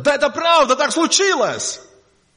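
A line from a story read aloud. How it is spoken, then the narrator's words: Shouting. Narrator (Russian): они закричат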